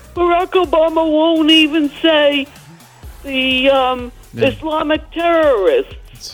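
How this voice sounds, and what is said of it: Imitates another person's voice. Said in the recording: “pretty good Trump impersonation.”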